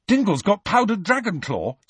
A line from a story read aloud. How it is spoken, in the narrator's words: said Ron eagerly